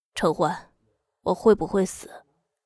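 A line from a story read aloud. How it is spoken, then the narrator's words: Hoarse. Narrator (Chinese): 他嗓音沙哑地说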